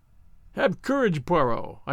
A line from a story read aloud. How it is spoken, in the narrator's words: I cried